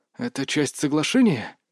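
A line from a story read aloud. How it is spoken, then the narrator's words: Hoarse question. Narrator (Russian): спросил Сергей хриплым голосом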